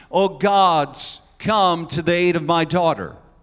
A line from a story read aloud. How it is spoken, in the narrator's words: She may have cried out to other gods of the Canaanites